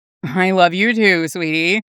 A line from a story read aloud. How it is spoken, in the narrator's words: Bucky chuckled fondly